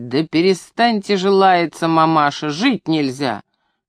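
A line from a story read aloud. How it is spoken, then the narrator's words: Indignant declaration. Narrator (Russian): Викторушка возмущенно провозгласил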